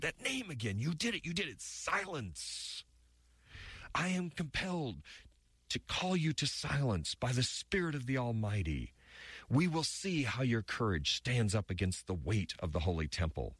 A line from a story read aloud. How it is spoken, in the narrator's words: Saul screamed and he said